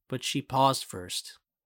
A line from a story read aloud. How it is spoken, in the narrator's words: he says